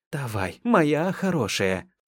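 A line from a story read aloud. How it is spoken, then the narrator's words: Frightened whisper. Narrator (Russian): шептала она побледневшими от страха губами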